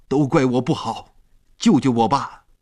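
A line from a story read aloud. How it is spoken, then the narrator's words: Desperate struggling shout. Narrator (Chinese): 他在海里挣扎着喊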